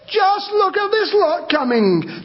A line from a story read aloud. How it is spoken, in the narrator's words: disciples yelled out loud